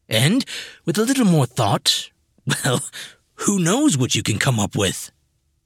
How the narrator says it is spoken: Undinus chuckled

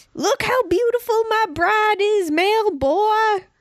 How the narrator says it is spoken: Junkrat hollered

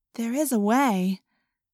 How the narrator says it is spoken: Cassie said hesitantly

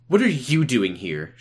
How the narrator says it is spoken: She snapped

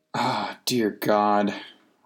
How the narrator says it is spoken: muttered aloud

